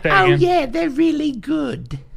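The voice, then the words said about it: Imitation of a woman's voice. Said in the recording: “That's a pretty good impression.”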